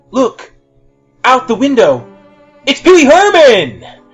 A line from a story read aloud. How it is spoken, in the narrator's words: shouted Captain Kirk